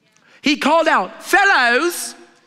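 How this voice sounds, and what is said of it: Put-on British accent. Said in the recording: “I don't know why it turned British. Fellows, like he got a British accent right there.”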